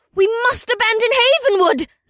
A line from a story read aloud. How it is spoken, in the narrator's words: a feminine voice shrieked